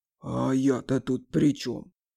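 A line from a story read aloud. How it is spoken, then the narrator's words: Offended, sighing. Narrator (Russian): Обиженно сказал медведь Ромашка и вздохнул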